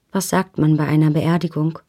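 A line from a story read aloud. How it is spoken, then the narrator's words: Plain question. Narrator (German): fragte ich ihn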